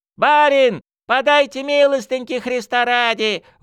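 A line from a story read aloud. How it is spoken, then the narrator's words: Crowd wailing. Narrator (Russian): вопили нищие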